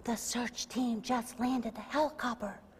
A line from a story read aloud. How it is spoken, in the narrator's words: In awed whisper, the child answered